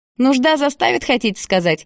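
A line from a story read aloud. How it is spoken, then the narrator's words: Chuckled. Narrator (Russian): Гарик хохотнул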